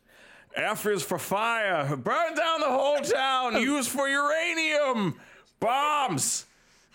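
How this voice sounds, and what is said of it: Cartoon villain character voice. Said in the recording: “I do a really good plankton”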